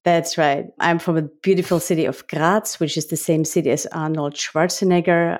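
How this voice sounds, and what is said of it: Austrian accent. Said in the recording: “The accent that you all uh, discover is because I'm from Austria”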